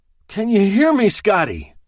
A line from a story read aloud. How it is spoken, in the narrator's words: groaned